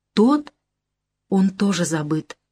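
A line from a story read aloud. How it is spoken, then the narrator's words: Calm. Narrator (Russian): спокойно говорит Маня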